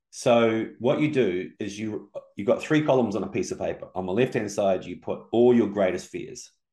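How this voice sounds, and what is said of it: Speaks with a noticeable accent. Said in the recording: “in case people don't understand my accent”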